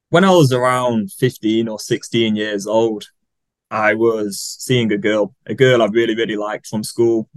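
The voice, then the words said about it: British English accent. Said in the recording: “lives in the UK. You can tell by his charming accent.”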